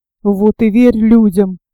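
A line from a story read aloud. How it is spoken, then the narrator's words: Grumbling. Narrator (Russian): ворчала гусеница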